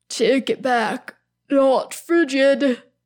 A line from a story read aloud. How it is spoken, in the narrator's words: moans out